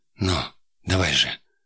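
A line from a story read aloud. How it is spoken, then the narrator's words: Languid whisper. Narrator (Russian): томно прошептала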